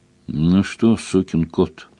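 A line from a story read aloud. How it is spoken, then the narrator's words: Affectionate question. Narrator (Russian): ласково спросил Сварог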